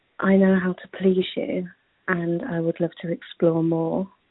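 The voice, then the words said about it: English accent. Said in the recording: “I'm from the UK, so I'm a ... English ... as you can tell, the most amazing English accent”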